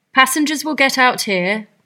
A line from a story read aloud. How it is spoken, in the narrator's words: the conductor shouted